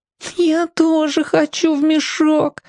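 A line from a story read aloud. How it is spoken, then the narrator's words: Whining voice. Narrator (Russian): хнычущим голосом сказала вторая фигурка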